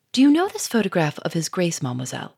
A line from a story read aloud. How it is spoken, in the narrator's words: he said quickly